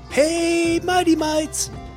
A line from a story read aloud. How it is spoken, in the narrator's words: yelled Paige